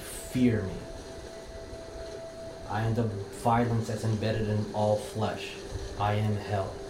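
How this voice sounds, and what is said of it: Strong, soothing yelling voice. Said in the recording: “you're yelling in a beautiful, soothing, but strong voice at this entity, you are yelling”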